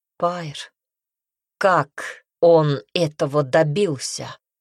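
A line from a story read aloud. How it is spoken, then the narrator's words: Steely question. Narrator (Russian): спросил он стальным голосом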